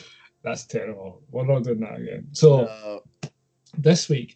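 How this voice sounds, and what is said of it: Usual voice. Nothing is said of it.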